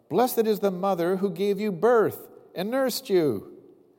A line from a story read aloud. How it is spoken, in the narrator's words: a woman in the crowd called out